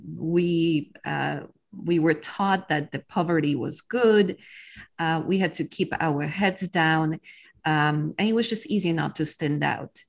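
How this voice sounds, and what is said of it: Polish accent. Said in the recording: “So you were originally from Poland. ... as you can tell by my accent, I am not originally from Texas”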